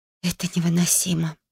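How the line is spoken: Irritated whisper. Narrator (Russian): прошептала, чувствуя, как в груди поднимается раздражение

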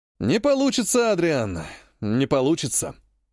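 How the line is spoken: Sighing. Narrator (Russian): вздохнул Вихор

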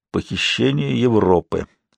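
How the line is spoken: Embarrassed muttering. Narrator (Russian): пробормотал я, смущаясь своей образованности

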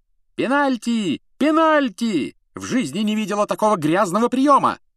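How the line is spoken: Shouting woman. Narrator (Russian): закричала мадам Трюк

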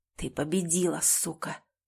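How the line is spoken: Hissed. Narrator (Russian): прошипел он

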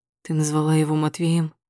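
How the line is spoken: Hoarse question. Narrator (Russian): спрашиваю хрипло

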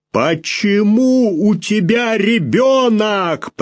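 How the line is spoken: Nearly shouting. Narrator (Russian): почти заорал он

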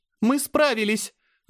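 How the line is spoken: Shout. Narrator (Russian): закричала Азара

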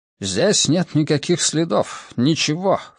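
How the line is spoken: Anxious muttering. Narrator (Russian): встревоженно пробормотал Леблан

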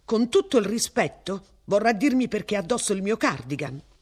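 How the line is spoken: Burst out. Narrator (Italian): sbottò

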